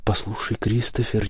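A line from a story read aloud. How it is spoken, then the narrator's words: Quiet. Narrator (Russian): тихо сказал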